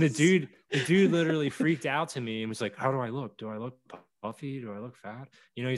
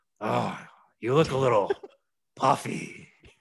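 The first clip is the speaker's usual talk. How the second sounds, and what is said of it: Impression of Vince McMahon's voice. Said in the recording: “let me do my better Vince voice.”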